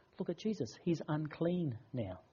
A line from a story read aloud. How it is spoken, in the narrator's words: They would have whispered to themselves